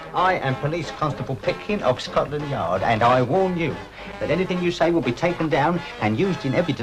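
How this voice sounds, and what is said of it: Usual voice. Nothing is said of it.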